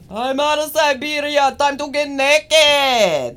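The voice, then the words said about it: Poor put-on Russian accent. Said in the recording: “What kind of accent was that? Russian. ... that damn sure was not Russian. ... It was a little bit of Russian. ... that was my Russian accent. It was not good, though.”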